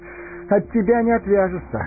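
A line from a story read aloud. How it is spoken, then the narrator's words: Laughing. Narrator (Russian): засмеялся Фродо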